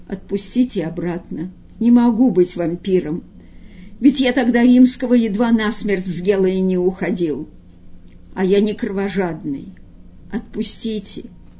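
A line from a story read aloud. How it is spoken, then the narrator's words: Quiet sighing voice. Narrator (Russian): Варенуха вздохнул и тихо сказал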